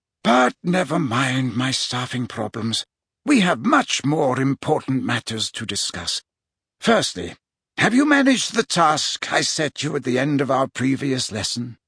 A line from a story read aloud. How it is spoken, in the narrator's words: Dumbledore heaved a deep sigh, then said